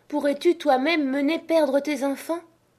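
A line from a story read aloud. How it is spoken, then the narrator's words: Woodcutter's wife exclaiming. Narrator (French): s'écria la bûcheronne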